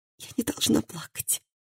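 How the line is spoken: Hoarse with emotion. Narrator (Russian): сказала она хриплым от эмоций голосом

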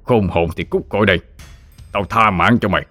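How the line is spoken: Shout. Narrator (Vietnamese): Hắn quát lên

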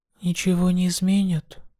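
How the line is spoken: Quiet. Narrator (Russian): тихо сказала Ая

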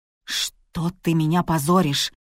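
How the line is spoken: Hissed. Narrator (Russian): прошипел Зорик

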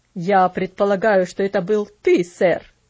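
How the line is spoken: Angry. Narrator (Russian): сердито сказал

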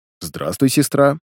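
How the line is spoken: Neutral tone over headset. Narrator (Russian): нейтральным тоном произнес я, через наушник в доспехах

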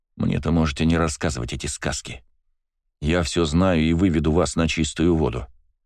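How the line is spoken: Calm reply. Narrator (Russian): спокойно ответил я

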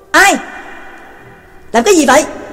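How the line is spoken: Faint, distant guards shouting. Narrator (Vietnamese): lờ mờ nghe thấy đám binh sĩ hộ vệ quát lớn

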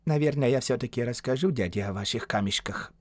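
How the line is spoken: Mesmerized mumble. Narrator (Russian): пробормотал Сажит, на которого блеск драгоценностей производил гипнотический эффект

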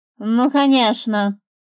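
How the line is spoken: Grumble. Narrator (Russian): буркнула птица

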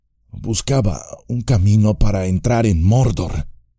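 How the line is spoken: Weak voice. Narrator (Spanish): dijo con voz débil

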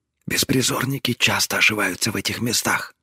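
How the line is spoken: Quiet reply. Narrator (Russian): так же тихо ответила она

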